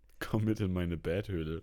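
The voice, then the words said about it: Sexy Batman-style character voice. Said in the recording (German): “du klingst wie Sexy Batman”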